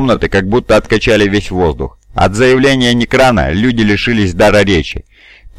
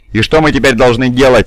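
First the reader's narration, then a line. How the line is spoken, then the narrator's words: Angry barking. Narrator (Russian): сердито рявкнула Бей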